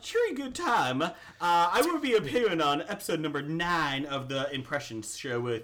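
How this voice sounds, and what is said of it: Put-on British accent. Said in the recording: “So I will be saying this in British. ... The Queen's English.”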